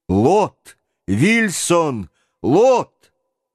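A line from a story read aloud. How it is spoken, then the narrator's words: Shouted. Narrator (Russian): Джон … крикнул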